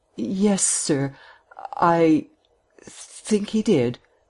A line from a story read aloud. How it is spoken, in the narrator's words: she admitted in an unsteady voice